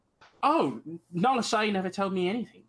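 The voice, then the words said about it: Failed Australian or New Zealand accent. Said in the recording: “I can't get a fucking Australian New Zealand accent. I can't.”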